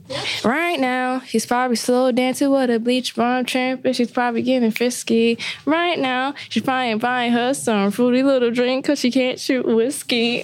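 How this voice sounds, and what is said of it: Sings with a put-on accent. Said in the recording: “my whole accent be changing singing it”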